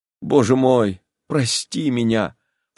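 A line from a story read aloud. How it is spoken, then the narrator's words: Sobbing. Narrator (Russian): всхлипывая, говорила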